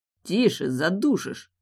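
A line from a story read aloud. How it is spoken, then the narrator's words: Hoarse wheeze. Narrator (Russian): прохрипел он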